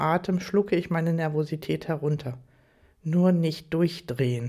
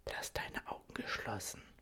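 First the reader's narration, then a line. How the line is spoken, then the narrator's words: Soft whisper in ear. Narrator (German): flüstert er leise in mein Ohr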